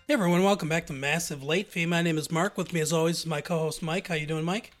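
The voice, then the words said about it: Nasal, congested voice. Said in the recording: “A little under the weather. Kids brought sickness into the house. So if my voice sounds a little nasally or otherwise disturbed, that's why.”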